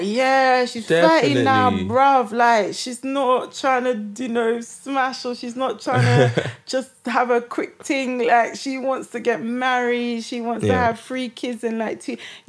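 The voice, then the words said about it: Badly done northern male accent. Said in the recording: “That was a terrible male accent. ... Who are you impersonating? ... I feel like it was, like, northern meat. Road top boy man.”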